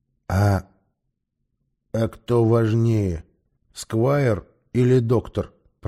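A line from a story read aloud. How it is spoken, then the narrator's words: Grumbled, gamekeeper. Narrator (Russian): проворчал егерь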